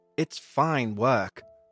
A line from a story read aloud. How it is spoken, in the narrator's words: said the Reverend